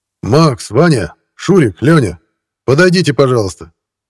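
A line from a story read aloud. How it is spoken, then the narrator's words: Slightly raised shout. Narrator (Russian): Слегка повысив голос, крикнул Архипов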